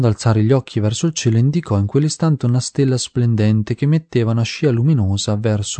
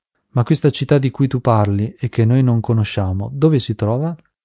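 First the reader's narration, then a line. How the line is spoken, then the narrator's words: Playful, curious question. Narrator (Italian): in tono scherzoso gli avevano chiesto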